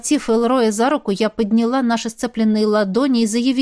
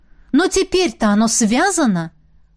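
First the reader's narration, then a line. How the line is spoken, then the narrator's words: Frightened exclamation. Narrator (Russian): воскликнула я, испугавшись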